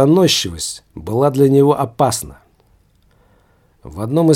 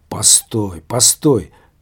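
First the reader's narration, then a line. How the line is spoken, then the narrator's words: Sudden mutter. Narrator (Russian): вдруг вслух пробормотал он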